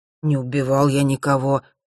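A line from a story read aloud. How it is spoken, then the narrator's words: Moaning. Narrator (Russian): простонал он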